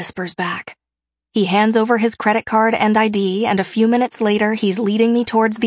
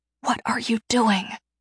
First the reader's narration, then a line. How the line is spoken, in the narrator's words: I whisper